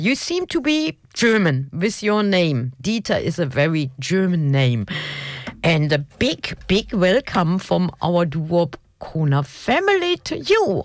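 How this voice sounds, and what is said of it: German accent. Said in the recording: “delightful German accent”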